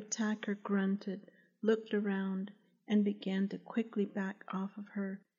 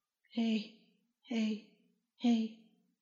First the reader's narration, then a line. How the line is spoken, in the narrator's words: she heard someone hoarsely say